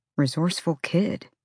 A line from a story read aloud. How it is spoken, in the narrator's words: Ethan muttered